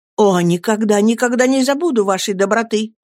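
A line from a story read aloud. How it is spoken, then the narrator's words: Relieved exclamation. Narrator (Russian): воскликнул, чувствуя, что с души моей свалился тяжелый камень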